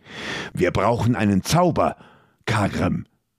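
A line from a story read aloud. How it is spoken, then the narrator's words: Hiss. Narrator (German): zischte Magnus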